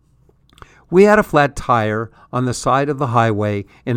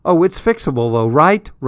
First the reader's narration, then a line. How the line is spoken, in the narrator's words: Russell asked